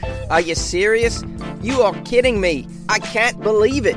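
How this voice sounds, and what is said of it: Put-on Australian man's accent, shocked. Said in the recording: “What do you guys think of my Australian accent, by the way? Is that pretty cool? I thought that was like spot on for an Australian accent. That was my impression of an Australian man shocked at winning the lottery.”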